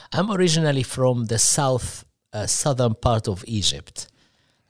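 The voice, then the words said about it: Egyptian-accented English. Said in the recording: “you have a nice accent. Um, you tell you're not from the Louisville area. ... Greatly obvious.”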